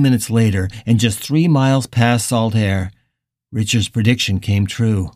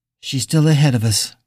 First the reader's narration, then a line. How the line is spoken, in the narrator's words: Billy said, his voice sounding miserable in the still afternoon air